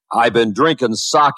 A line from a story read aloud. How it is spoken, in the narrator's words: the laborer bellowed back